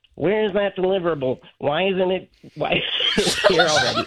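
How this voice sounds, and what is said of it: Imitates another person's voice. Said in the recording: “we have to hear an impression of your boss ... not your Michael impression, your boss impression. Do your boss.”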